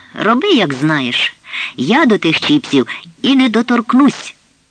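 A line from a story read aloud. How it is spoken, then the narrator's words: Tearful woman's exclamation. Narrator (Ukrainian): Ледь тамуючи сльози, бідна жінка вигукнула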